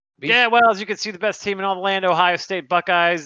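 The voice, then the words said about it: Imitates another person's voice. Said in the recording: “your Andrew impression”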